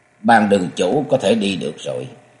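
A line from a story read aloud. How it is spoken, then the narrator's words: Cold. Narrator (Vietnamese): Ngũ sắc tiên tử lạnh lùng nói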